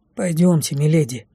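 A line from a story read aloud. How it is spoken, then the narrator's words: Quiet. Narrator (Russian): тихо сказал Лей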